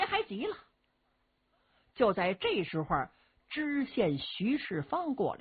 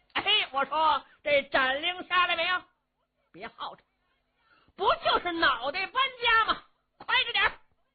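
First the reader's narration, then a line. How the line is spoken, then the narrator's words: Shouting. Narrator (Chinese): 程大爷在辕门外头喊声了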